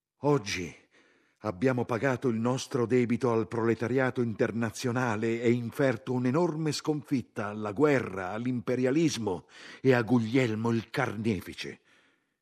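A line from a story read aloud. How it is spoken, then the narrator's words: Shouted. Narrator (Italian): Zinoviev gridava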